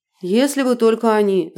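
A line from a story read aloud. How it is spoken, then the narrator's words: Sighed. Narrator (Russian): вздохнул Рафик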